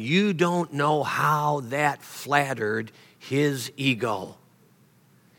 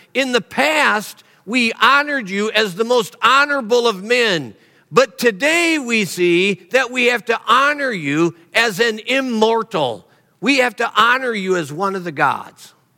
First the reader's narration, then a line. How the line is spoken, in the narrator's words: the people screamed to him